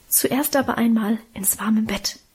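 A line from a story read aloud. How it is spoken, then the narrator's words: Whispered. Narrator (German): flüsterte Mutter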